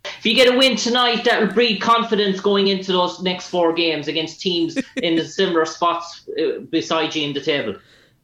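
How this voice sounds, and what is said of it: Irish accent. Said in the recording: “Where are you from? ... Ireland. ... I like your accent. It's tough.”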